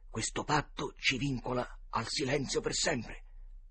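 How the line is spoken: Murmuring. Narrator (Italian): mormorò Huckleberry

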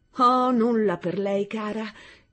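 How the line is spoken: Exclaimed. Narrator (Italian): esclamò

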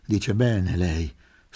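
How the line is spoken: Sighed. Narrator (Italian): sospirò

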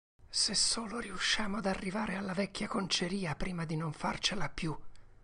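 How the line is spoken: Breathless whisper. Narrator (Italian): sussurrò Tom col respiro mozzato

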